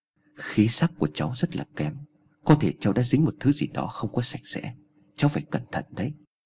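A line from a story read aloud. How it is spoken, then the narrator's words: Soft, quiet old woman. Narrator (Vietnamese): bà mới khẽ nói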